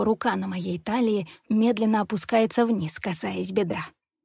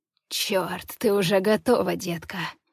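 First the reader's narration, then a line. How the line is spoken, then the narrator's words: Hoarse command. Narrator (Russian): хрипло приказывает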